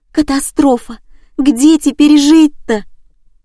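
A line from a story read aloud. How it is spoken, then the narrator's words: Wailing turning to hysterical sobbing. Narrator (Russian): Причитания сменились бурными истерическими рыданиями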